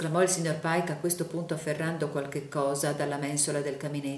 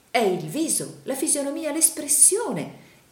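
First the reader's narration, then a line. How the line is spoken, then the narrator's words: Exclaimed. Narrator (Italian): esclamò il signor Pike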